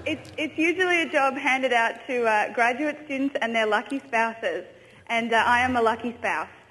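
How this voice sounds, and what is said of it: British accent. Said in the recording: “she had a British accent”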